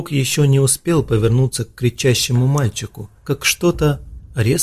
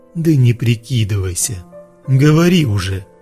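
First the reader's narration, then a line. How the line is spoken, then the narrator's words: Angry growl. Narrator (Russian): Злобно прорычал Ророк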